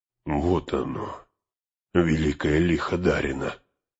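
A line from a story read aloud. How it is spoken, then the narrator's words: Whisper. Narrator (Russian): прошептал он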